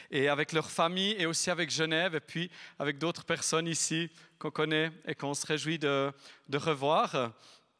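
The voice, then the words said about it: Speaks French with a noticeable accent. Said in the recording (French): “Peut-être l'avez-vous remarqué à mon accent.”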